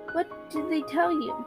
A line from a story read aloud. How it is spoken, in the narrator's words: Choked down a sob, managed to speak over it